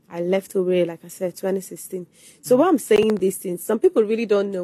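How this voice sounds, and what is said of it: Nigerian Igbo accent. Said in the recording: “my accent, Igbo accent”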